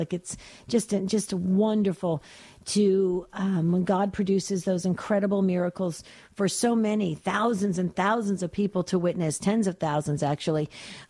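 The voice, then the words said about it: Raspy, slightly hoarse voice. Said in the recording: “Yes, I am a little raspy. ... this upper respiratory thing happening”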